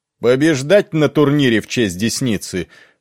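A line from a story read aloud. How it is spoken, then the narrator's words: Shout over cheering crowd. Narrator (Russian): выкрикнул лорд Берис под восторженные вопли толпы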